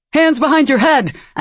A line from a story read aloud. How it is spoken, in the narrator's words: Another shouted